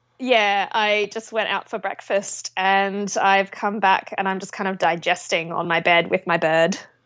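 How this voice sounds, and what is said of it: Australian accent. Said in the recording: “if I recognize that brogue, perhaps from the land down under.”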